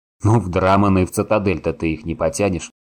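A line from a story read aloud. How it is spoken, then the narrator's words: Smirking grunt. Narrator (Russian): хмыкнул Саныч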